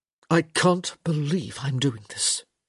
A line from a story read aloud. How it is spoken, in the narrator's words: he muttered